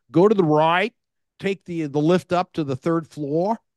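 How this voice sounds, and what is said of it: Weak put-on Australian accent. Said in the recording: “I'm trying to do my Australian accent, not very good.”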